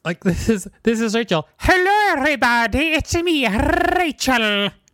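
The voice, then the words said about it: Imitates another person's voice, odd accent. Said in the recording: “my impression of you ... What accent is that?”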